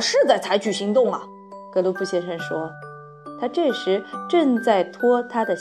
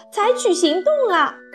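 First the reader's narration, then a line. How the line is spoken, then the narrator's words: Loud. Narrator (Chinese): 格罗普太太对格罗普先生大声说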